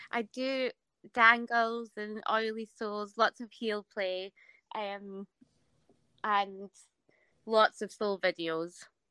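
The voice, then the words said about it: Scottish accent. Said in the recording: “my accent ... a Scottish accent”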